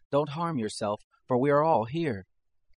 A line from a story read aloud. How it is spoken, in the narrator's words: Paul cried with a loud voice, saying